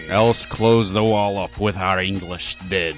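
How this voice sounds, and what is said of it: Put-on Scottish accent. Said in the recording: “my Shakespearean quote about English dead with a Scottish accent”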